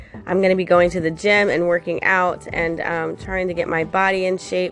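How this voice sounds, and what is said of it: Weak, strained voice from illness. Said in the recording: “We are kind of sick in this house, so as you can tell, my voice is kind of giving out ... I was like having a hard time talking”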